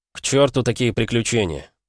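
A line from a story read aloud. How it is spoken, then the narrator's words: Muttering. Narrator (Russian): пробормотал я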